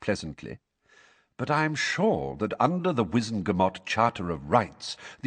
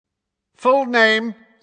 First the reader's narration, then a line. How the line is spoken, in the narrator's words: said Fudge loudly